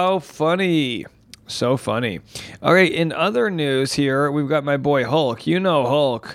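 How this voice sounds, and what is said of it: Usual voice. Nothing is said of it.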